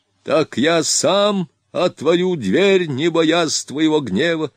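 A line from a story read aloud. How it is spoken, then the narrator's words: Old man shouting. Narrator (Russian): закричал старик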